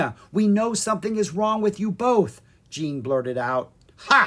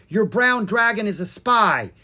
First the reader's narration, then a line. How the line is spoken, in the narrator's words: she cried